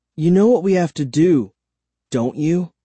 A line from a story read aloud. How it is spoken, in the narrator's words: I said softly